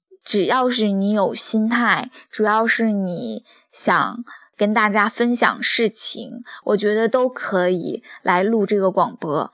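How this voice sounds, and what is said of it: Speaks Mandarin with an accent. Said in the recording (Chinese): “说话啊，就是有口音”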